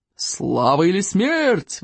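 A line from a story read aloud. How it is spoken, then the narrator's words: Roar. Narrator (Russian): взревел стойк обширный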